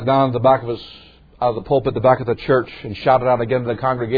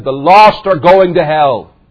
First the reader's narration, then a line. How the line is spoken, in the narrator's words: At the top of his lungs, said